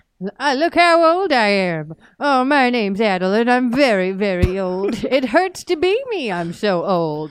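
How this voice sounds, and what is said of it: Exaggerated old man voice. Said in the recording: “This is my impression of Old Man Puzzies.”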